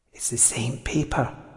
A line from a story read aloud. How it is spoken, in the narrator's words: Catriona whispered